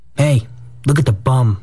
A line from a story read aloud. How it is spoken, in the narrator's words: a fat jolly rover called out